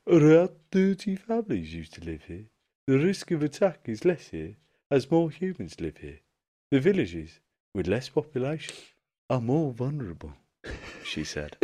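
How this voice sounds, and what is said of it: Put-on accent, well done. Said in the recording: “That's the best accent you've ever done.”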